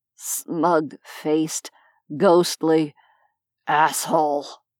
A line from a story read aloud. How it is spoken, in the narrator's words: slurred, still without stirring